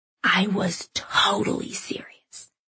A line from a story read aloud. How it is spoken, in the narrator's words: she whispered back